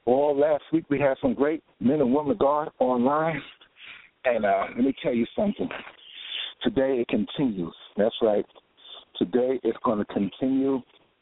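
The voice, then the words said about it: Slightly out of breath speaker. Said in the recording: “I'm out of breath a little bit because we've been working hard out here.”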